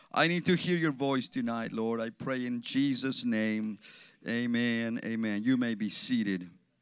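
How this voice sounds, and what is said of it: Mexican Spanish accent. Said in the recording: “I excuse my accent. I was born in Mexico. I grew up in Mexico until I was 14 years old.”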